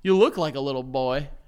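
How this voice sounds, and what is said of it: Hick accent. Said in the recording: “with like a hick accent?”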